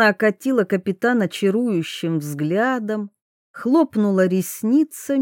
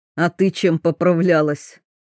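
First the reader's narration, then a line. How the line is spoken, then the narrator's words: Snorting. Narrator (Russian): хмыкнул Щепкин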